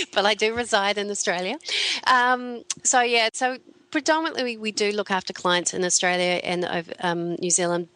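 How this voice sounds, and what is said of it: Slight foreign English accent. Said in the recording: “you might have picked up a little bit of my accent ... I did a little bit”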